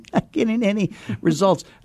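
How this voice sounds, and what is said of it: Whiny, complaining voice. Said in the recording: “This is my whining voice. I'm imitating my coaching students”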